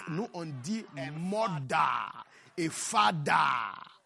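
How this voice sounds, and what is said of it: African village accent. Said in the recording (French): “Laisse-moi utiliser mon accent. ... Moi, je viens d'un village de l'Afrique.”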